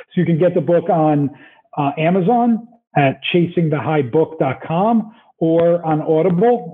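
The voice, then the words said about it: New Jersey accent. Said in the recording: “this amazing Jersey accent”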